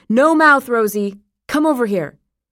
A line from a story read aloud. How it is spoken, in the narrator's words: called out